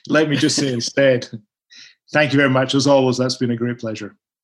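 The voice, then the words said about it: Speaks with a distinctive accent. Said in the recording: “I could listen to that accent forever ... my accent”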